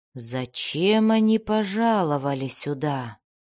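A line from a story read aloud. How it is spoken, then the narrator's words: Thoughtful whisper. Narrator (Russian): задумчиво прошептал чародей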